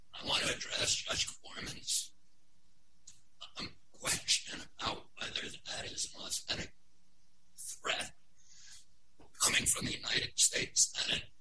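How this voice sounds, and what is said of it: Strained, poor-condition voice. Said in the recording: “excuse my voice, which is really bad today”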